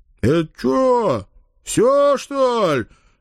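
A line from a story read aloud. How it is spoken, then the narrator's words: Displeased male booming. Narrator (Russian): недовольно прогудел кто-то из мужиков с околицы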